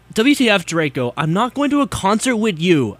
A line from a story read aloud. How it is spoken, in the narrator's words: I shouted angrily